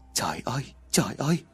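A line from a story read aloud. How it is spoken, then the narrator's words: Muttering. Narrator (Vietnamese): miệng lẩm bẩm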